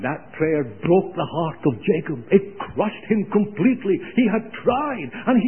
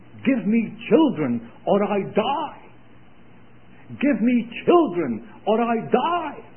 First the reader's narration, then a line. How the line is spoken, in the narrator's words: she cried and she prayed